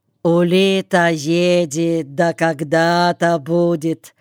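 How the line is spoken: Drawn-out drawl. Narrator (Russian): протянул Хромой

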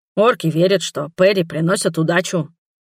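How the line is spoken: Grumbling. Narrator (Russian): проворчал Брук

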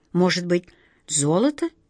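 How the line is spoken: Uncertain question. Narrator (Russian): неуверенно спросил волшебник Алеша

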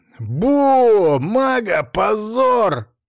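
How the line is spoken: Loud shout. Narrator (Russian): выкрикнул кто-то громко

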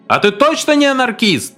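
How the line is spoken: Shouted out. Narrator (Russian): кто-то наконец выкрикнул

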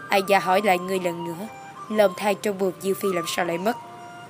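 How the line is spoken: Stern, cold question. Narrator (Vietnamese): nghiêm khắc, lạnh lùng hỏi

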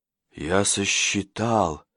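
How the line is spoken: Exhaled. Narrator (Russian): выдохнул Курбевуа

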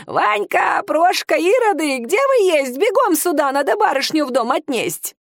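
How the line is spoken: Old woman shouting. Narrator (Russian): старушка закричала

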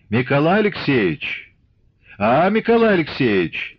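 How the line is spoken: Loud, stern calling. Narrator (Russian): звал он громко и строго

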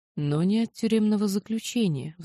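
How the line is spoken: Sighing. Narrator (Russian): вздохнула я

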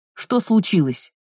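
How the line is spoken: Barking snap. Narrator (Russian): рявкнула

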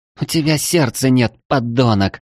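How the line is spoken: Hoarse rasp. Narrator (Russian): прохрипела эльфийка

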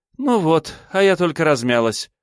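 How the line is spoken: Sighing. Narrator (Russian): вздохнула Меньшикова

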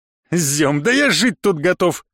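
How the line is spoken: Chuckling. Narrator (Russian): хохотнул Владимир

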